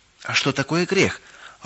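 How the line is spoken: Timid question. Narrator (Russian): робко спросила Галочка

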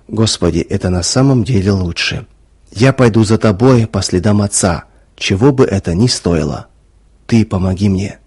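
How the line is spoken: Whispered. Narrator (Russian): вспомнил Ваня слова, сказанные о Моисее, и прошептал

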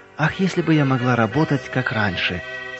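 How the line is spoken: Regretful sigh. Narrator (Russian): с сожалением вздохнула она, вспоминая нелегкое прошлое

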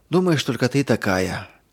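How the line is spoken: Heavy sigh. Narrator (Russian): тяжело вздохнула Ирина

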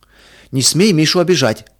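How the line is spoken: Protective shout. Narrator (Russian): крикнул Петя, готовый встать на защиту брата

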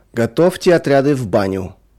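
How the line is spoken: Sudden shout. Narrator (Russian): вдруг крикнул кому-то конвоир

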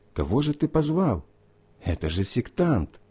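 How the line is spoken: Group whispering. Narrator (Russian): Сидящие с ним шептали

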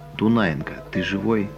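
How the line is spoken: Quiet question. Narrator (Russian): Григорий тихо спрашивает

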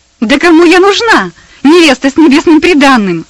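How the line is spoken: Wild laughing exclamation. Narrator (Russian): Дико захохотав, воскликнула Персида

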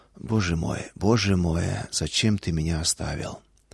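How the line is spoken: Whisper, not a wail. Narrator (Russian): Шепот, не вопль

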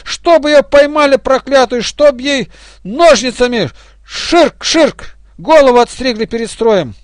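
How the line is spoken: Furious group shouting. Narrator (Russian): бригадисты рассвирепели, и все кричали, особенно одна, злобно вращая глазами

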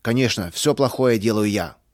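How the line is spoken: Angry repetition. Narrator (Russian): сердито повторил Густав

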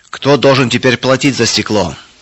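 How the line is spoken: Shouting. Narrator (Russian): кричал Эрих

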